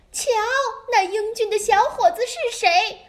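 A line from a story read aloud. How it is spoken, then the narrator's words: Queen calling out. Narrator (Chinese): 王后 她叫道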